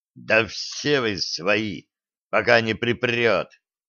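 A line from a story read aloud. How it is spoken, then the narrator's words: Bitter rasp. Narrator (Russian): с ожесточением проскрипел Федя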